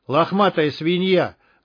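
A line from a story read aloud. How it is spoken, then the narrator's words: Rude prompting. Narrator (Russian): грубо подсказал Алексей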